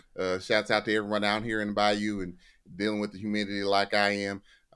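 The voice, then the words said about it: Put-on Florida accent. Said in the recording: “I'm not really sure what accent a Florida man has, so I'm going to go ahead and handle this like more towards Tallahassee ... Why is he talking like that? And do we think that's the Florida accent?”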